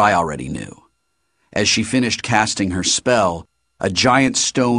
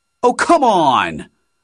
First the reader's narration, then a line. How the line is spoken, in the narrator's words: I shouted